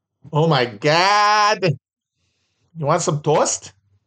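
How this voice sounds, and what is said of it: Wisconsin accent, drawn-out O vowels. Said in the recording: “That's my favorite part of the Wisconsin accent is the way they do OA ... the O in words like God”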